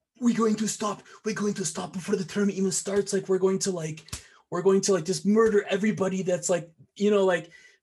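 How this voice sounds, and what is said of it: Poor character voice impression. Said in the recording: “I apologize if that impression was like a little like horrible”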